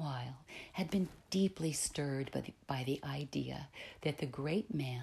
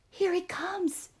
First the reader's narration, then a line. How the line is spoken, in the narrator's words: cried a group of people